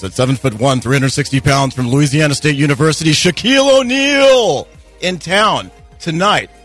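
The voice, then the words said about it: Sports announcer voice. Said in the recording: “I need to do my own sports announcer voice.”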